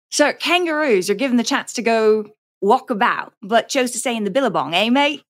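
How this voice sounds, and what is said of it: Poor put-on Australian accent. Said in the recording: “I think your Australian accent has migrated to another continent.”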